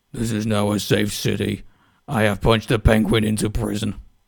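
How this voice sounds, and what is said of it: Gravelly superhero character voice. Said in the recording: “do my best Batman voice”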